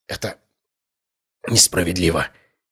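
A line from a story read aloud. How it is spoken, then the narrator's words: Whisper. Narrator (Russian): прошептал он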